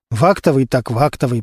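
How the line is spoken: Muttered under breath. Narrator (Russian): пробормотал себе под нос Костя

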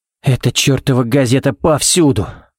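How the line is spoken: Sigh. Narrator (Russian): вздохнул Баллок

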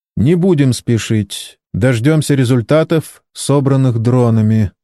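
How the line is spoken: Calm. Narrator (Russian): спокойно ответил Кен

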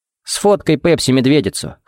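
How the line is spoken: Wry grunt. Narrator (Russian): хмыкнул Джаред

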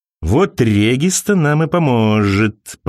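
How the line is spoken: Sinister drawl. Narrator (Russian): протянул он зловеще

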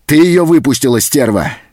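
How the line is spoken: Angry shout. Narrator (Russian): закричал он

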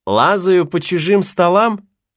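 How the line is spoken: Plain. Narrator (Russian): ответил Симпкинс Гатлингу

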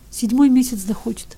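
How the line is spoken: Tearful answer. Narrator (Russian): отвечал Ивка все еще сквозь слезы

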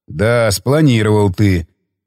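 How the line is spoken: Snorting. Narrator (Russian): хмыкнул он

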